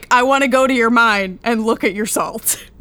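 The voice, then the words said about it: Imitates another person's voice. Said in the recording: “my Copernicus imitation... It sounded just like him.”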